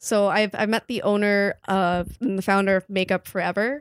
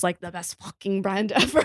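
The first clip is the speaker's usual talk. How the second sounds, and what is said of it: Attempted thick French accent. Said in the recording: “with her thick French accent ... I have no idea how to do a French accent.”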